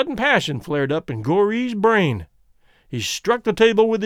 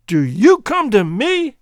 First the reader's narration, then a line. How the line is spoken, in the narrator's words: he shouted